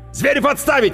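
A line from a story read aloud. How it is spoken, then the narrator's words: Barked command. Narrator (Russian): рявкнул майор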